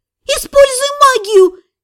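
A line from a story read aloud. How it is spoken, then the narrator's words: Shout. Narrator (Russian): крикнула та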